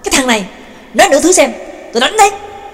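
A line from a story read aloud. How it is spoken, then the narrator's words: Angry shout. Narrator (Vietnamese): Trương Lập giận dữ quát lên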